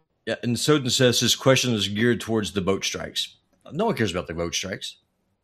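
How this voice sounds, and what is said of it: Southern accent. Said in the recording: “The southern accent's getting in the way.”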